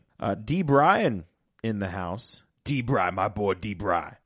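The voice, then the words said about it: Imitates another person's voice. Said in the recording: “my Booker T impression ... That was good.”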